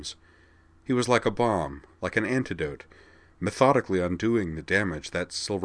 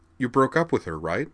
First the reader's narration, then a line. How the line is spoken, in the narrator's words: said Vigdis